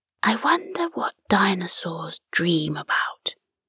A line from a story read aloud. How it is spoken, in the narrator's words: Bobby whispered